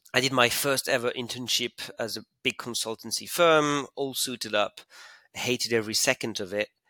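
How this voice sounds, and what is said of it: French-accented English. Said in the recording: “when I was in business school in Paris, as you can hear from my accent”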